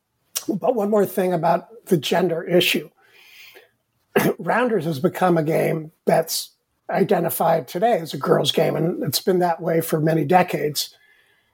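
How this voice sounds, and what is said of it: Hoarse, fading voice. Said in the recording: “As you can tell, I'm losing my voice, which is not uncommon.”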